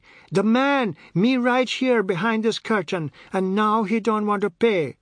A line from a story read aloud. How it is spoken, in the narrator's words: shouting